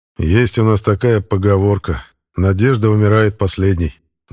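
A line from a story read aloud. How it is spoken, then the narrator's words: Sigh. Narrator (Russian): вздохнул Казарский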